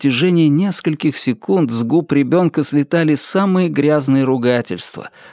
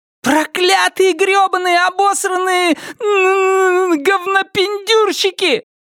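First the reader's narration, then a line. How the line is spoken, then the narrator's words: Son's wild scream. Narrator (Russian): Дико завопил его сын с больничной койки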